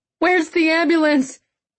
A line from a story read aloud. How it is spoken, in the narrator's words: She cried